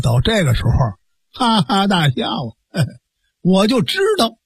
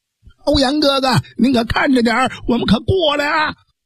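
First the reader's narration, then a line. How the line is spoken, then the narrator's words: Shouting. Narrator (Chinese): 蒋平喊了那么一句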